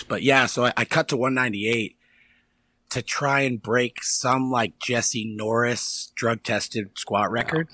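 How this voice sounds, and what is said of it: Hoarse, strained voice. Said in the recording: “my voice is a little hoarse. I was recording vocals for this metal project I have going on right now ... my voice a little hoarse”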